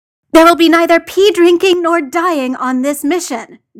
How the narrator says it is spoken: John snapped

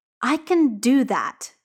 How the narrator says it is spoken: said Jordan savagely

